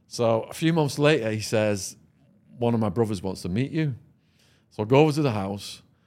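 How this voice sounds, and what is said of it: English accent. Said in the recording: “my English accent, and he's like, damn, you talk funny. I guess you must be from England.”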